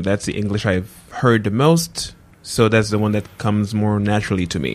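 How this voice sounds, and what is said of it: American-sounding English accent. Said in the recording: “My accent is American-like ... think I'm American when they hear me speaking”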